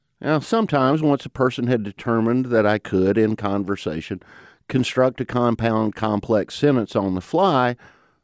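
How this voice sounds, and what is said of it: Southern mountain twang accent. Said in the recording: “her Southern accent ... folks heard my accent ... it's hard to lose a mountain twang like this one”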